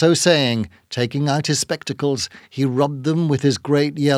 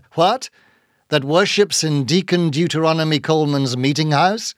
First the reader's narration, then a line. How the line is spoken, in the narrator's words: cried Bildad